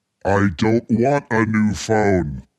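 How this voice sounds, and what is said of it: Deep-voiced imitation of another person. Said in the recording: “She's got a really deep voice.”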